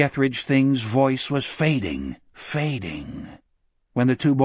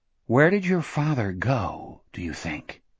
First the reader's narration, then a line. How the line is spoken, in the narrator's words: Jack asked softly